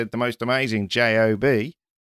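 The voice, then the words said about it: Put-on Australian accent. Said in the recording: “That was an Australian accent ... It was perfect.”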